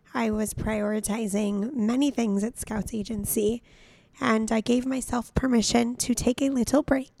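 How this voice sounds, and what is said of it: Hoarse, raspy voice. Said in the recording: “Scout Sobel here with a lost voice ... I lost my voice ... I am sorry if my voice is so unbearable to listen to. I hope that it's giving sexy, raspy vibes.”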